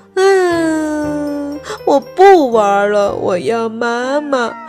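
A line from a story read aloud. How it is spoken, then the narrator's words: Wailing monster. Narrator (Chinese): 怪兽哇哇大哭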